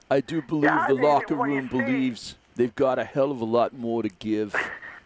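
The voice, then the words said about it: Impression of Brett Brown. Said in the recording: “That's pretty good, huh? you're good. You got a future in this impersonation business. ... got 3 days left of his Brett Brown.”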